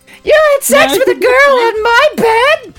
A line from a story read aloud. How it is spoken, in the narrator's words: She screamed